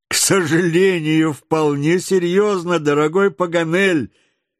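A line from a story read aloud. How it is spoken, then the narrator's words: Reply amid general laughter. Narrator (Russian): ответил среди общего хохота Гленарван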